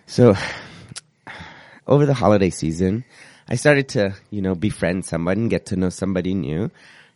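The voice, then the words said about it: Husky sick-sounding voice. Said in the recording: “it's my sexy, sick radio voice”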